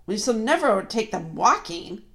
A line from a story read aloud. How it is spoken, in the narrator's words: growled the dwarf